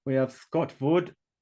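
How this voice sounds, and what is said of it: Slight German accent. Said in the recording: “I said that in a slight German accent.”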